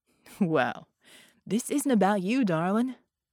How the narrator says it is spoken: Red chuckled

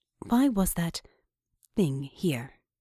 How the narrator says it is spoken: asked

